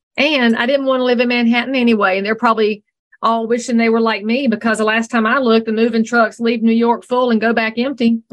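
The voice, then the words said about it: Southern American accent. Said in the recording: “I'm not letting my accent go. ... They've taken everything else Southern out”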